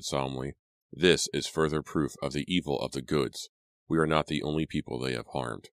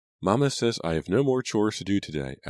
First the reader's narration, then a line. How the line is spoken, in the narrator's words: Abigail said happily